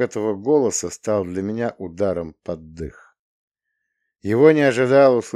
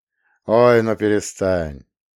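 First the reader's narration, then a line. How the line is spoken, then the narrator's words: Smirking. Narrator (Russian): Романовский усмехнулся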